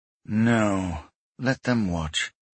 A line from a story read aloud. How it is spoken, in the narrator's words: Misrem said grimly